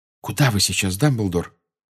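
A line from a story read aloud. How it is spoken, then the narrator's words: Whisper. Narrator (Russian): прошептала МакГонагал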